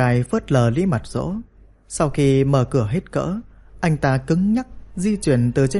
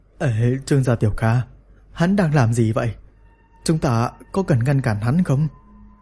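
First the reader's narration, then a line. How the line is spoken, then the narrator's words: Trembling question. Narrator (Vietnamese): Lý Mật Dỗ run rẩy hỏi tôi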